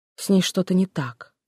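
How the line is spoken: Quiet. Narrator (Russian): произнес он тихо

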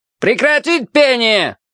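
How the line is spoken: Loudspeaker roaring. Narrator (Russian): взревел динамик у потолка

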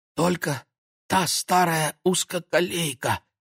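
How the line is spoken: Strained breathy exhale. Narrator (Russian): как-то сдавленно выдохнул Владик

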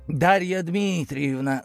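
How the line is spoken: Dry curt greeting. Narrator (Russian): сухо кивнул

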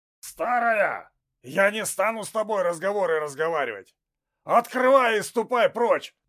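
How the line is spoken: Nervous hoarse shout. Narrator (Russian): нервно прокричал тот же хриплый убийца

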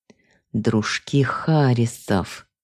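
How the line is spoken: Through gritted teeth. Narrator (Russian): Процедил сквозь зубы Вернер

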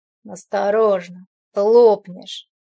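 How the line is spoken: Lazy smirking. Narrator (Russian): Лениво усмехнулся он

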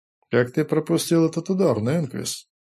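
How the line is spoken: Lazy inquiry. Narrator (Russian): Лениво интересовался Мэскви

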